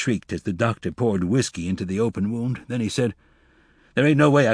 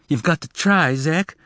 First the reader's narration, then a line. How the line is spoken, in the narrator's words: Glenda pleaded